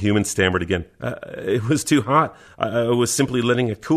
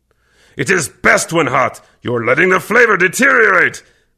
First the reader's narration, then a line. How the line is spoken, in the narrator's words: Kervec growled deeply